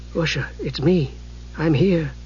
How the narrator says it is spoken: he said softly

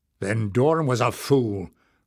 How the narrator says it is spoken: growled Barda

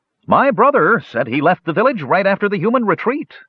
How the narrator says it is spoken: someone standing near Kishpa shouted

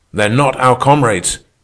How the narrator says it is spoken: shouted in my ear

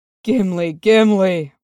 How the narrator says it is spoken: Oin groaned

